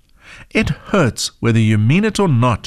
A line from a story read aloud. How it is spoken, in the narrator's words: grumbled